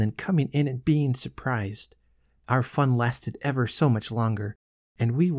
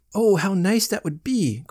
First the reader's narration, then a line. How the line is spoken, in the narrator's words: cried Laddie